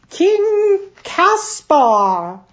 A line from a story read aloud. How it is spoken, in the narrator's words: the page announced loudly